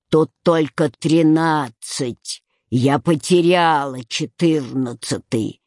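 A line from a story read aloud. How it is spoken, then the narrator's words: Grumbling. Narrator (Russian): пробурчав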